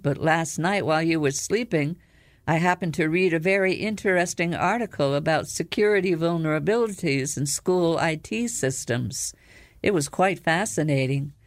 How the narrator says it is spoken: Jade answered calmly

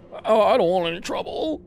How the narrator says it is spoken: the owner whimpered

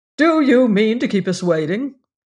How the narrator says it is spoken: The voice rose again sharply

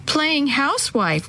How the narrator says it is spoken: one of them giggled

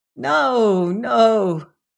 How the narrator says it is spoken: cried he

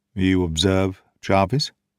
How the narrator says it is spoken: he said in a low voice

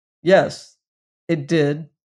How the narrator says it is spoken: he answered firmly

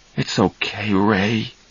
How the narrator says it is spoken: Charlie said softly to his brother

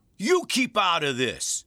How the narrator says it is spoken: Roy roared

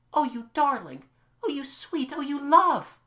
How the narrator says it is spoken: she cried

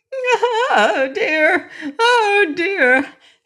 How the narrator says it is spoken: she wailed, in fear

